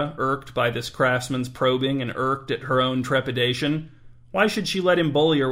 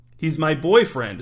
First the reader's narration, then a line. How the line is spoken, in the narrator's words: said Myra